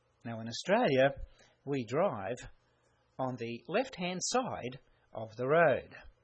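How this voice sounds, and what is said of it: Australian accent. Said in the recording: “You could probably guess by my accent that I am an Australian.”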